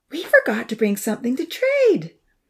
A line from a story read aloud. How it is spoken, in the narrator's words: Lily suddenly exclaimed